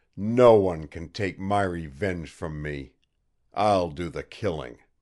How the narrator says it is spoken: he growled

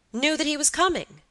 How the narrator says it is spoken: cried, brightening up

